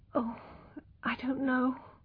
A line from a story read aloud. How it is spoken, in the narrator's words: she murmured